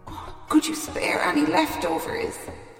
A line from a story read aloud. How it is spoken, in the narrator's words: he begged